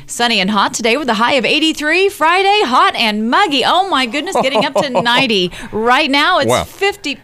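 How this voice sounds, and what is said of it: Forced radio announcer voice. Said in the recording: “radio voice ... my radio voice ... A little forced ... that is different”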